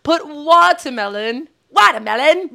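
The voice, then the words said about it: Attempted British accent, sounds Cajun. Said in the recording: “You got like a Cajun accent or something. ... I'm trying to be British.”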